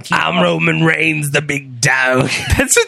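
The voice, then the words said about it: Poor imitation of another person's voice. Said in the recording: “you can just do your impersonations... You did it pretty good last time, and then you just did a horrible one there.”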